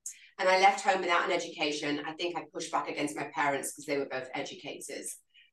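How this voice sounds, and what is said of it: English accent. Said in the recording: “I am English, obviously you can tell from my accent”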